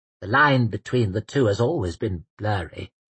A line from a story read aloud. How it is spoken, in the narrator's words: murmured Braccio